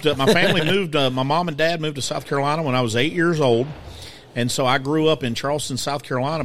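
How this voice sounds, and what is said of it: Southern country American accent. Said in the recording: “my accent makes me sound like I'm from somewhere in Fort Worth, Texas, because it's a combination of West Virginia and the low country of South Carolina ... you're from way down in the south ... you sound country ... quite the diversity in my accent”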